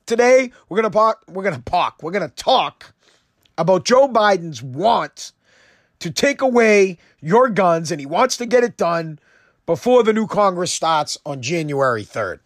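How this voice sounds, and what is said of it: Hoarse sore-throat voice. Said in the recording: “my voice is a little bit off. I still have a sore throat”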